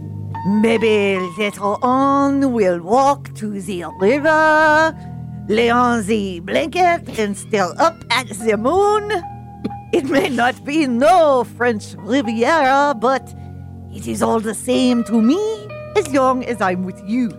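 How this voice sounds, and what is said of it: Bad French accent, sounds German. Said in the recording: “do it in a French accent, please ... I only have a worst French accent ... that sounded more German than French”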